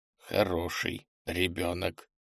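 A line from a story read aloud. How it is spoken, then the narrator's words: Muttered under breath. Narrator (Russian): пробормотал попаданец под нос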